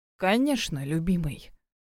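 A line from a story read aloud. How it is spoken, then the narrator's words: Cooing in rough low voice. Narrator (Russian): проворковала невеста грубым низким голосом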